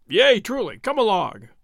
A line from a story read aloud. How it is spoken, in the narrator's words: said Will Stuteley gruffly